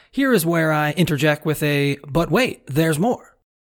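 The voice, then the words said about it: Infomercial announcer voice. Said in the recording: “in my best infomercial voice”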